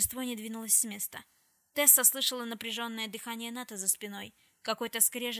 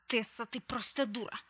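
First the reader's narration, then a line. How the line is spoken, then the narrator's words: Hiss. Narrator (Russian): прошипел Нат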